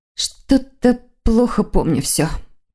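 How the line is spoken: Mumbling. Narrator (Russian): пробормотала она

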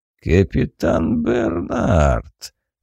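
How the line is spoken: Thoughtful drawl. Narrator (Russian): задумчиво протянул бандит

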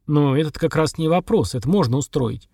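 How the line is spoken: Thoughtful. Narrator (Russian): задумчиво сказал Сергар

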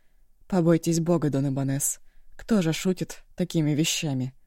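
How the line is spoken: Loud sigh. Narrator (Russian): Начальник тюрьмы шумно вздохнул

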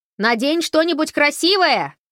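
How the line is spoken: Shouted after her. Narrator (Russian): крикнул ей вслед Холли

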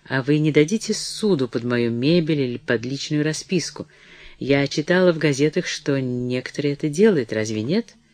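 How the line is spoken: Stammering, uneasy mumble. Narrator (Russian): Начиная понимать всю невыгодность своего положения, она пробормотала, заикаясь

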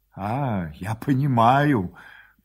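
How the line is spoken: Mumble. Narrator (Russian): пробормотал

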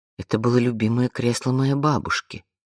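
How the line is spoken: Quiet. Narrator (Russian): тихо сказала Вианна

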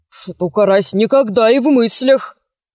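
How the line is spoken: Mumbling. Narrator (Russian): промямлил Копчиков

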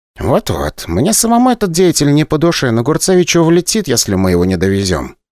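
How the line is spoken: Quiet. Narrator (Russian): тихо сказал Иван

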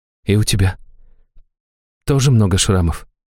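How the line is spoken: Quiet question, young woman. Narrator (Russian): тихо спросила девушка

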